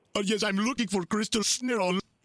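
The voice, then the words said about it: Put-on Indian accent. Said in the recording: “an Indian accent ... see how you do with this accent”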